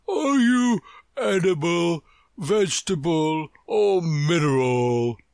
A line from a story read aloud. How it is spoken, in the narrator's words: he said, yawning at every word